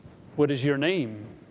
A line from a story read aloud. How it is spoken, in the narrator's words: he asks